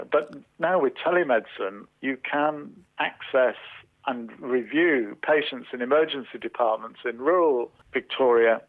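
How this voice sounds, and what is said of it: British accent. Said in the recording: “as you can tell from my accent, I came from the United Kingdom”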